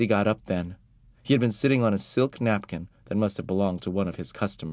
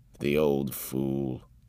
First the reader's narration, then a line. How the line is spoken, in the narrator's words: Father muttered